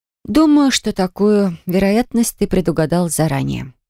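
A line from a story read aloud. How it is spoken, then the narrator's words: Calm reply. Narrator (Russian): спокойно ответила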